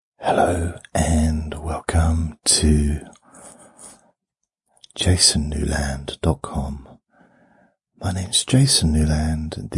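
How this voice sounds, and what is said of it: Soft ASMR whisper. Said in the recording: “ASMR Whisper ... a softly spoken whisper version”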